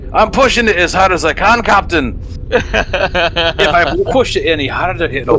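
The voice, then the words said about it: Put-on Scottish accent. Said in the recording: “I want ... to use the Scottish accent”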